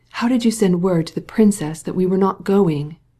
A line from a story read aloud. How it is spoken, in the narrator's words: he demanded angrily, in a whisper